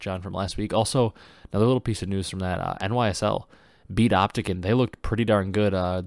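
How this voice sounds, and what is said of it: Congested, stuffed-up cold voice. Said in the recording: “if I sound a little different, I'm a little under the weather. I've had a terrible cold ... I'm all stuffed up ... So if I sound a little under the weather, sound a little different”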